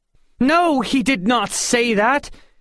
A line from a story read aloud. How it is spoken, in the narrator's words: Helen answered in a loud voice